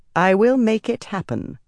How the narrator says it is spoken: Messana said evenly

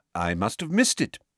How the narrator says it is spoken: said Dumbledore cheerfully

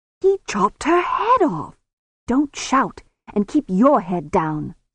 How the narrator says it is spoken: Susan hissed

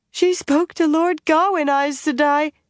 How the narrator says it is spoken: Sara sobbed into the earth

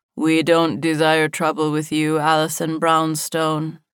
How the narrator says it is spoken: the man explained, his voice flat and devoid of any hint of feeling

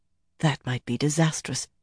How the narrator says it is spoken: Galena muttered

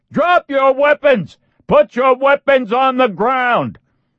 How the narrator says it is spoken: Reacher stayed with the full-on experience and screamed

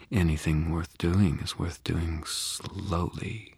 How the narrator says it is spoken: she murmured

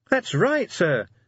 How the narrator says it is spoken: said Cheery happily

